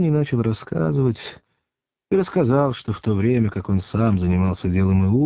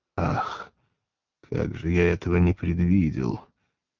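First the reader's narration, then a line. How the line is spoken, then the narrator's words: Startled, hoarse. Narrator (Russian): Пилат вздрогнул, сказал хрипло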